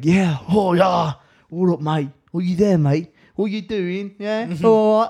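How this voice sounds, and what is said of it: Put-on English accent. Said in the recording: “I could perfect the English accent before I could speak this fluently”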